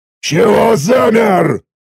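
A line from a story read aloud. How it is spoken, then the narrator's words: Roar. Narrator (Russian): снова взревел надсмотрщик, отвечающий за сбор ОС с пленных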